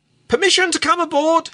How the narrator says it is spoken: he cried jocularly

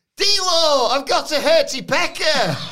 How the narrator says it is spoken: Did he yell

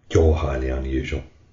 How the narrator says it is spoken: muttered Sita

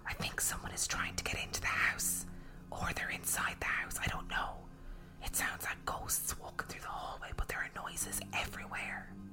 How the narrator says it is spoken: I whispered

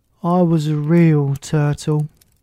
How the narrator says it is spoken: the Mock Turtle said at last with a deep sigh

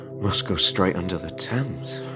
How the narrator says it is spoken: whispered Harrison

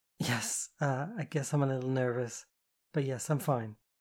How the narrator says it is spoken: Kitty chuckled

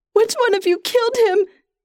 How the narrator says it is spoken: She cries

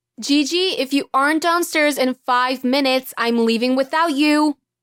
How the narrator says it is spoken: Mom yelled up the stairs

